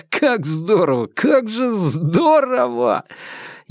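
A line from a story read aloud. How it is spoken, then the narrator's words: Laughing, repeating. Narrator (Russian): засмеялся, повторяя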